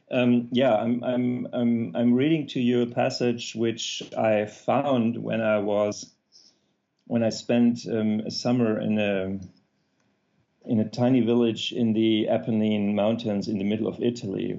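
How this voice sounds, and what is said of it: German accent. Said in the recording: “You need to excuse my German accent”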